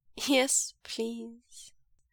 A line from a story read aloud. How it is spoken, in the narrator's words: Wei Ying repeats, his laughter subsiding as his voice trails off into a whisper